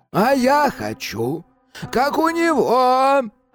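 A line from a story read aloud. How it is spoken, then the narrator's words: Whiny drawl. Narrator (Russian): Капризным голосом протянул Кощей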